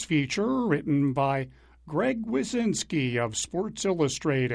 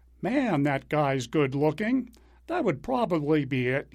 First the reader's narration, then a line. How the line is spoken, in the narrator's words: he said after the game, drawing laughter